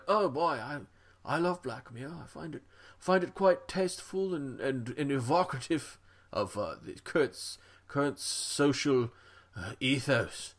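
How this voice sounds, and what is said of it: Put-on accent. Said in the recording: “I didn't mean to impugn your accent there.”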